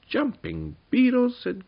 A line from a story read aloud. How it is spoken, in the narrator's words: cried Tuppany in amazement